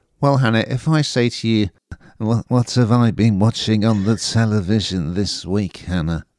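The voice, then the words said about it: Imitates another person's voice. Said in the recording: “That's my David Bowie impression.”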